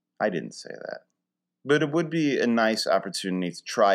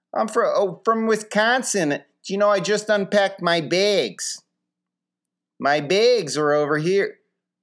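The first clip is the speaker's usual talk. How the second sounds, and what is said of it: Put-on Midwestern Wisconsin accent. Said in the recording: “my Midwestern impression ... that Wisconsin accent”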